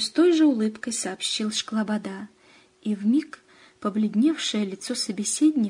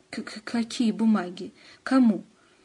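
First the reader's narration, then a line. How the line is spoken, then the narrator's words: Sudden stuttering. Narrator (Russian): Антон вдруг стал заикаться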